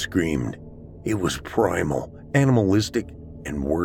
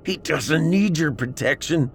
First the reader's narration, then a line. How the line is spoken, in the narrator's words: shouted